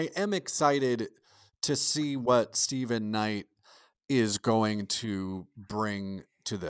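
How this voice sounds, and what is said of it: Usual voice. Nothing is said of it.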